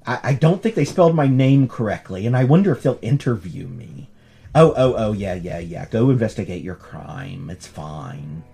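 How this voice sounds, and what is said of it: Put-on American Valley Girl accent. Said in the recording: “I just did it in that accent. ... why did you do an American Valley Girl for an old British man?”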